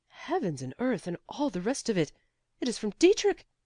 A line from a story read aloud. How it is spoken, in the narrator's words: he cried out